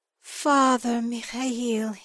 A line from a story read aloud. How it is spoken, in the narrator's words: Ivan sighed